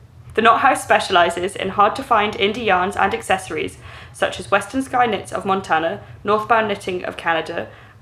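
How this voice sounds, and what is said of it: English accent. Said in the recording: “I still have an English accent”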